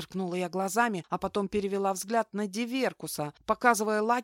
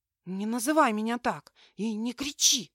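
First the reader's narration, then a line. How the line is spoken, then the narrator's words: Hissed. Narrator (Russian): зашипела я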